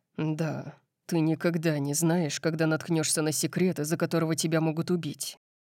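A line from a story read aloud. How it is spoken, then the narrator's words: Mutter. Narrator (Russian): пробормотал он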